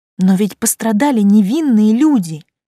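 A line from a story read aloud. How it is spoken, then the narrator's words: Theatrical exclamation. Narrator (Russian): С интонациями актрисы из фильма воскликнула я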